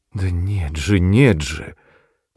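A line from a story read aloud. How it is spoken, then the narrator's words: Insistent incoherent mumbling voice. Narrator (Russian): твердила Бригитта Пиан тем самым голосом, каким бормотала что-то несвязное тогда ночью у меня под дверью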